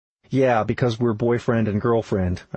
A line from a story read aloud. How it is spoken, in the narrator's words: I replied